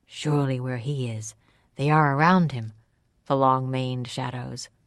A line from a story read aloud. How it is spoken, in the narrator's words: I said